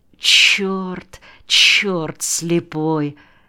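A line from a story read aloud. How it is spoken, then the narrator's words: Quiet cursing. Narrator (Russian): тихо ругался Сашка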